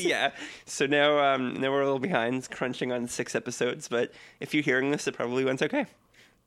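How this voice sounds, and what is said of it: Hoarse voice recovering from laryngitis. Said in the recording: “I don't know if you can hear it in my voice, but I'm just getting over laryngitis.”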